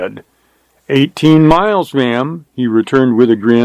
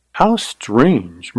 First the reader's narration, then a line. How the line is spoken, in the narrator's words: murmured Carly